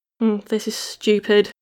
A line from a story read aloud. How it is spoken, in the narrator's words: she muttered